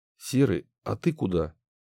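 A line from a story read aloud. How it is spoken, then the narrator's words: Plain question. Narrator (Russian): спросил Кирилл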